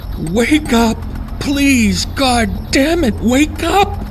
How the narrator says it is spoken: she cried

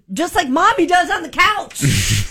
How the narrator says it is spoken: my daughter pointed out and yelled

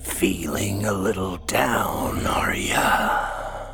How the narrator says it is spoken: A raspy voice to his right said

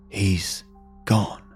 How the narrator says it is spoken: whispered, his voice breaking

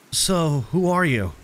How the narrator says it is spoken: I asked him

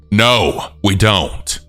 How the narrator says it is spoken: firmly told him

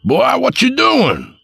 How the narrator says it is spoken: Papa yelled

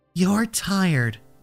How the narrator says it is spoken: she said softly, her voice echoing in my mind even though her lips barely moved

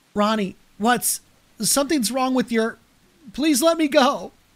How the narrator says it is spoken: Anna whimpered

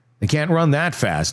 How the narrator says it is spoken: he said

